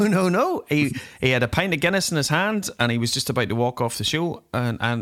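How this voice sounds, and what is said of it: Usual voice. Nothing is said of it.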